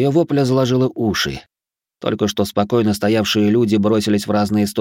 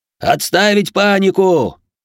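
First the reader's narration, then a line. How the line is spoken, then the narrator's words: Roaring. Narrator (Russian): взревел Герман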